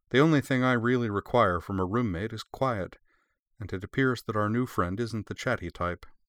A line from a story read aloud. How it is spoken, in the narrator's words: she added dryly